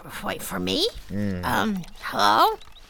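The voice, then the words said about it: Sleepy voice. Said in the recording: “You sound a little sleepy.”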